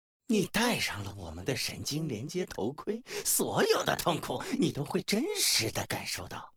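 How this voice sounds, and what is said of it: Malicious, menacing villain voice. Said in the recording (Chinese): “用充满恶意的声音说道”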